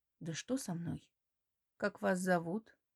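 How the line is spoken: Hoarse voice. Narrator (Russian): В голосе звучат хрипловатые нотки

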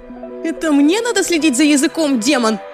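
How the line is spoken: Shrill shriek. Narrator (Russian): визжала Лизи

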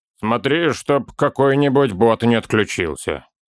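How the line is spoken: Grumble. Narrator (Russian): проворчал наконец

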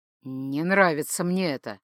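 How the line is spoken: Warrior's grumble. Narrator (Russian): пробурчал воин

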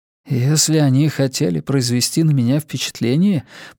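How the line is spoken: Mumble. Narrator (Russian): пробормотал Тео

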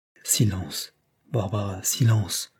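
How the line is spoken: Low repeated words. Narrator (French): répéta Madame Herr à voix basse

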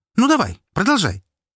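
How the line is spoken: Sharp, curt. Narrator (Russian): резко произнесла Настя

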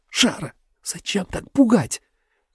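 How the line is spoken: Shrill hysterical whisper. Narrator (Russian): В моем шепоте звучали визгливые истеричные нотки

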